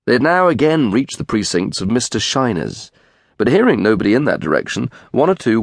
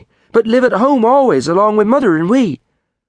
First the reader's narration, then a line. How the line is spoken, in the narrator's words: cried Jimmy